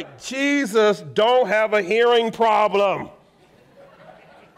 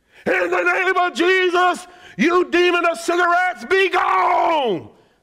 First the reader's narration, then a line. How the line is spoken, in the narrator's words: They always screaming at us